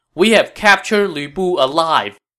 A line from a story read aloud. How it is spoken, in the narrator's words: At the top of the wall, Wei Ho shouted